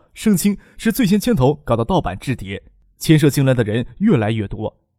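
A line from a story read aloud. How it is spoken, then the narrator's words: Bitter laugh. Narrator (Chinese): 张克苦笑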